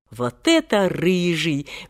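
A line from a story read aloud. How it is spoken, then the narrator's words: Admiring exclamation. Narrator (Russian): восхищенно воскликнул кто-то из публики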